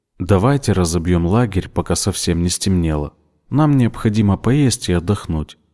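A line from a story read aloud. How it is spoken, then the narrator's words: Calm. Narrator (Russian): спокойно сказал он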